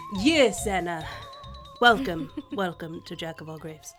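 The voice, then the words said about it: Ambiguous, unplaceable put-on accent. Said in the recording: “it's not the accent, but it's my ode to David Dasmalchian's, random accent ... that I'm not entirely sure what it was supposed to be ... my ode to ambiguous accents that, I can't place”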